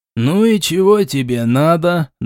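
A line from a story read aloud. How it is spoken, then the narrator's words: Rough grumble. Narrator (Russian): довольно грубо проворчал Шичерун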